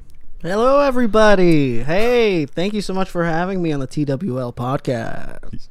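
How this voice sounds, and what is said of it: Radio announcer voice. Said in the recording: “That's my radio voice.”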